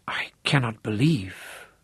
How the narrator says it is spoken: Aunt Trudy breathed

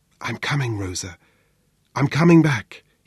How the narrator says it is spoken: whispered

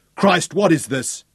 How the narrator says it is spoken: shouted

